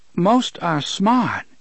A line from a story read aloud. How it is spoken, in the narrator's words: Susanna said, but she looked anxiously at Eddie